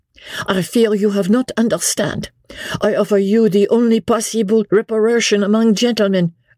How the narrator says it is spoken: interposed the Vicomte earnestly, and in still more broken English

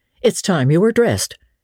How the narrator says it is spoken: she said curtly

